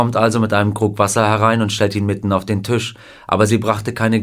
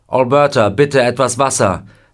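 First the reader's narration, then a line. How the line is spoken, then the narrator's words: Calling out. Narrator (German): er ruft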